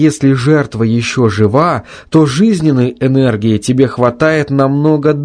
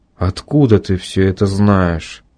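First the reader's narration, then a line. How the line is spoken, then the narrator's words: Very quiet, tired, doomed. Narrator (Russian): Совсем тихо, усталым и каким-то обреченным голосом спросил Алексей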